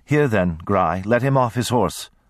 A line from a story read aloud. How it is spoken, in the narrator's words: Parn said in her dry voice